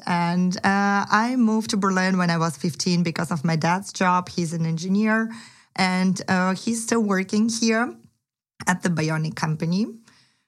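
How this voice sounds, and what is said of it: Ukrainian accent in English. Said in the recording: “I'm originally from Kiev, from Ukraine. So in case you wondered about my accent.”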